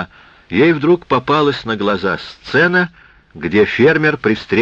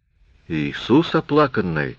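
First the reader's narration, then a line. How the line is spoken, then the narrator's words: Mumbled with rounded lips. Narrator (Russian): пробормотала Доди, округлив губы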